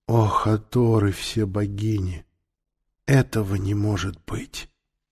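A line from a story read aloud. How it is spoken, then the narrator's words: Whisper. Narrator (Russian): прошептала она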